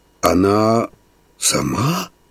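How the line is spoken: Puzzled whisper. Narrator (Russian): прошептал шофер, морща лоб от мыслительного напряжения

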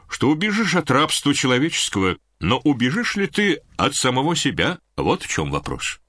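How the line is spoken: Thoughtful. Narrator (Russian): задумчиво сказал Косма

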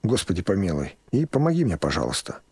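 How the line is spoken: Whispered prayer. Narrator (Russian): прошептал

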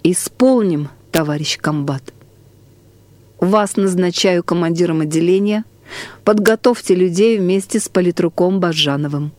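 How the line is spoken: Deep breath, then speaking. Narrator (Russian): Вздохнув всей грудью, выговорил

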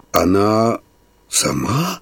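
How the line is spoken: Whisper. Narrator (Russian): прошептал шофер

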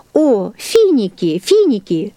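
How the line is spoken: Exclamation. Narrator (Russian): воскликнула она

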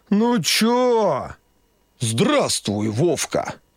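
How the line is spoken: Deep cartoonish old man's voice. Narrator (Russian): пробасил дед голосом мультяшного Деда Мороза

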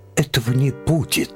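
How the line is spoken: Exclaimed. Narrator (Russian): воскликнул Лем

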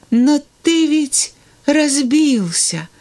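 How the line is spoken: Sad child's voice. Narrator (Russian): грустно ответил мальчик

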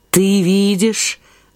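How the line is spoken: Sad, grieving. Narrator (Russian): отвечал печально цыган, знавший уже о смерти княжны Лилимико

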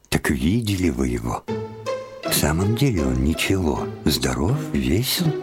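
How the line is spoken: Asked in a low voice. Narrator (Russian): спросила вполголоса

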